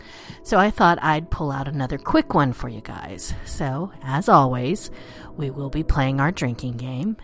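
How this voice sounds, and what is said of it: Unwell, sick-sounding voice. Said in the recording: “as you can tell from my voice, I am not feeling very well”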